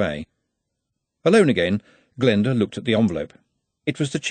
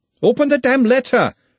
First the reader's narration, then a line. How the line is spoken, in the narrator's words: shouted Glenda